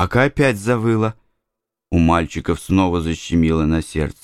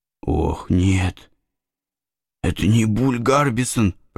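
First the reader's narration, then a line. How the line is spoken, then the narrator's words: Whispering. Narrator (Russian): прошептал Гекльберри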